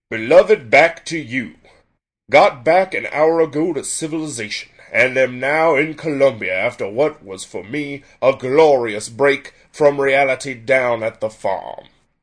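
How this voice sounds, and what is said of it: Documentary-style letter-reading voiceover. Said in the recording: “he's basically doing the anyone in Ken Burns' is the Civil War ... doing a voiceover read of letters ... I think I do that voice fairly well”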